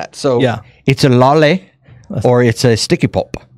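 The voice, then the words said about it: Put-on English accent. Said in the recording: “Do I have a good English accent? ... Actually, yeah.”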